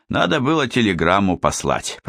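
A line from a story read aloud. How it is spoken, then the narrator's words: Grumbling. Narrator (Russian): проворчал Тараканов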